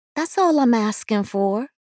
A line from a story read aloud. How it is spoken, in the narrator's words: said sweetly